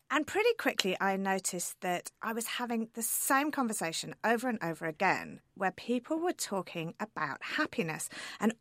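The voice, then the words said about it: British accent. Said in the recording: “I'm from the UK, as you can probably tell from my accent.”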